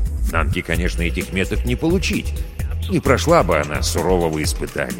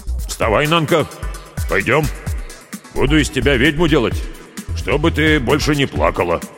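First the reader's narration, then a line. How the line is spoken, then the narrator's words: Forced deep shaman-like voice. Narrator (Russian): Тангай изо всех сил старался говорить сильным, низким голосом, как настоящий шаман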